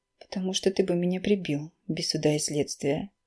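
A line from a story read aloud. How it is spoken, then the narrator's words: Sad girl. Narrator (Russian): грустно завершает девушка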